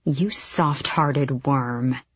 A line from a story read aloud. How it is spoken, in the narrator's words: Manon hissed at Abraxos